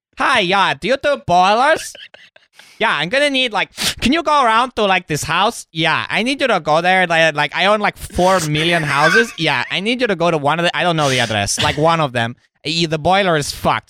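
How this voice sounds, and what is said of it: Vague foreign accent, put on. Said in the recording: “I don't know what my accent is either. He's like a Romanian guy who's had head injury.”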